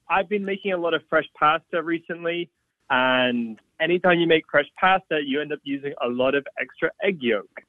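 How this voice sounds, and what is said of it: Slight mixed British-Australian-American accent. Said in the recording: “I hear a little accent there ... British-Australian-American mongrel”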